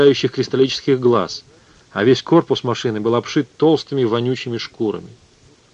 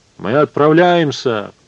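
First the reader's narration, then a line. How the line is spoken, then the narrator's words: Booming, resonant voice. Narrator (Russian): протрубил Эдипон зычным голосом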